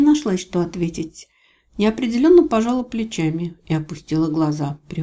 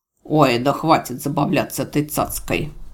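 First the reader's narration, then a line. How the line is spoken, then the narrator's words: Displeased snort. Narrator (Russian): Марий недовольно фыркнул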